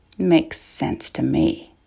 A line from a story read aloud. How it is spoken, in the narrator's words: Michael muttered